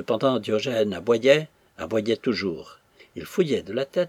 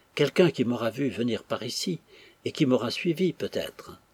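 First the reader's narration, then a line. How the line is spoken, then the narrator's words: Murmuring. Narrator (French): murmura Florence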